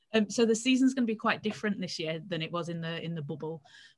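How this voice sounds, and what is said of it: British English accent from Leeds. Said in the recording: “I'm from Leeds in the UK... I liked your accent.”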